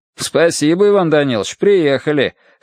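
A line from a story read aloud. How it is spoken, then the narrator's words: Amused snort. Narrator (Russian): хмыкнул в ответ лейтенант Новосельский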